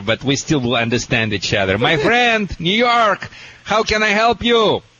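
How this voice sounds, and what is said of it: Russian accent. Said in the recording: “the world famous Russian dog wizard ... my accent a little bit worse than there”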